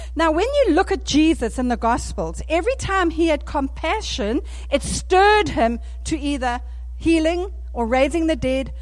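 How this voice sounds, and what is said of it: South African accent. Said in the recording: “Excuse my South African accent,”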